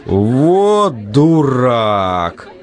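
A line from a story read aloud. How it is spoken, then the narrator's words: Disappointed exhale. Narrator (Russian): разочарованно выдохнул Сергей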